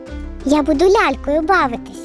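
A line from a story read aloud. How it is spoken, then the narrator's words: Plain. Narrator (Ukrainian): сказала вона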